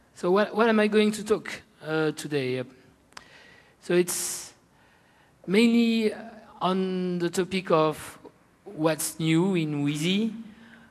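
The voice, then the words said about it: French-accented English. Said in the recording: “my silly French accent”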